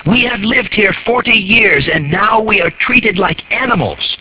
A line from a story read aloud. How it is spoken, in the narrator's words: the woman cried